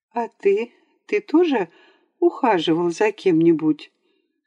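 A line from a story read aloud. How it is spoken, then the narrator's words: Unnaturally calm question. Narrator (Russian): спросила Вера Львовна неестественно спокойным тоном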